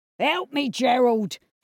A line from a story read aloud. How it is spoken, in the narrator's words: he hollered in a panic